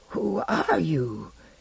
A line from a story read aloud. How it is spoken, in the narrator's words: he said in his husky little voice